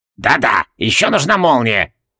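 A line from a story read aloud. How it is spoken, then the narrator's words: Snort. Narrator (Russian): хмыкнул Себастьюс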